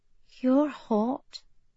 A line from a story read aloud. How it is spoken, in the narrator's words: she murmured